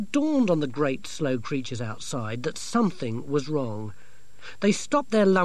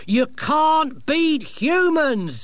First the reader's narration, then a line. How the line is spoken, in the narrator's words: shouted Dorcas above the roar of the engine